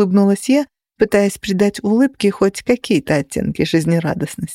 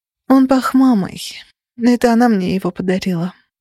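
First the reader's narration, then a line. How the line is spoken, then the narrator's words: Breathed out, regaining composure. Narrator (Russian): выдохнула я, беря себя в руки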